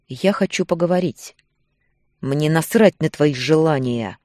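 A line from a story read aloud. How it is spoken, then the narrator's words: Low growl. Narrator (Russian): Голос сорвался на низкое рычание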